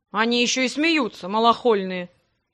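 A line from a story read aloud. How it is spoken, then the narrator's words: Grumble. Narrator (Russian): проворчал Грег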